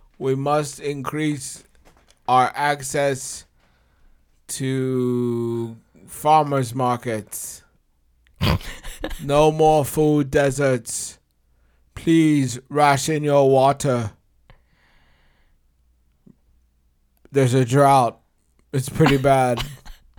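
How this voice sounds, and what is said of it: Imitates a governor's public speaking voice. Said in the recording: “declarations as governor ... That was a great impression”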